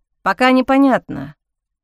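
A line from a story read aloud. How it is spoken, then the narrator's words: Grumbling. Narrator (Russian): проворчал Ник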